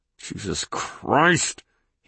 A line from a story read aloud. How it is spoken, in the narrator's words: hissed, his teeth clenched